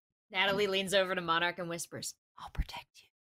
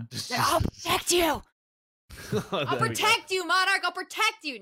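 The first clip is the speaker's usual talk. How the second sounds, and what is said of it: Yelling loudly. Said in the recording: “yelling at you now ... stop yelling”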